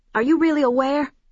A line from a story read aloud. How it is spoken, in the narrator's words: I blurted